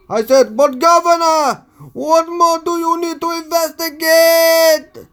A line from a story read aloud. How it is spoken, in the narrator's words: I yelled